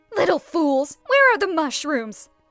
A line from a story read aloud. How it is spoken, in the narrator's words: the stepmother shouted